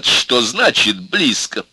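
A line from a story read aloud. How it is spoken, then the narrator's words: Slow laugh. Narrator (Russian): Кэт медленно засмеялась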